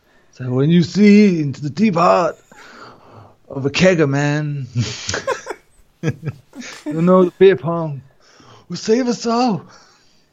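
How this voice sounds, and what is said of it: Frat boy character impression. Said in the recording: “like a big frat boy... good an impression... brilliant”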